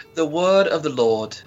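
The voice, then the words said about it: Put-on British accent. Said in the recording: “Can you do your British accent again? ... It's a British accent.”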